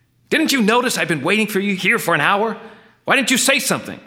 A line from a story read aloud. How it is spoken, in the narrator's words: yelling furiously